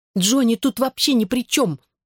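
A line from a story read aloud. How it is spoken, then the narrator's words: Forced out, strained. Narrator (Russian): выдавила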